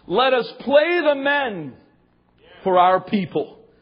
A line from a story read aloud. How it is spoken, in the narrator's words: Joab cried